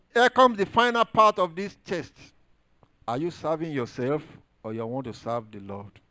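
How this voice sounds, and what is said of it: Heavy foreign accent. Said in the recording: “my accent is too deep for some of you”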